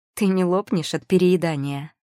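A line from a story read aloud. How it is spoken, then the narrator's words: Snide question. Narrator (Russian): поинтересовалась ехидно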